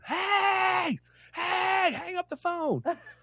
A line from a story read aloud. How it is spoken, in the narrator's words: she starts screaming into the phone